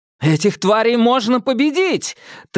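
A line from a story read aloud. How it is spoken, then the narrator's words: Triumphant shout. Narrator (Russian): торжествующе крикнул Томас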